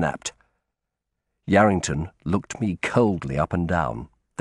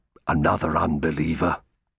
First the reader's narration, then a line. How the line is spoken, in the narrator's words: He muttered something that sounded like